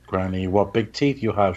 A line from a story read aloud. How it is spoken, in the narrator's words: she says